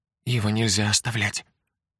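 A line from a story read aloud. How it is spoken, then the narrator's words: Whisper. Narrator (Russian): прошептала она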